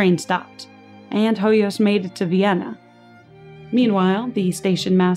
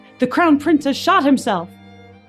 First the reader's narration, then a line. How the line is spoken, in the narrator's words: Hoyas shouted